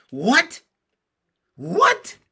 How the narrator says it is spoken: cried all the children at once

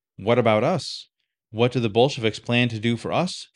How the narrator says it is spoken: asked

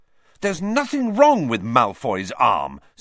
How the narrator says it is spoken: said Harry furiously

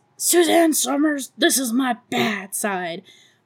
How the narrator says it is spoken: Beverly yells

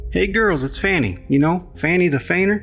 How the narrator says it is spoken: yelled across the room

